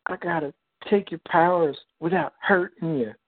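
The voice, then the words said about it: Impression of Rogue from X-Men. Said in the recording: “your Rogue impression from X Men animated series”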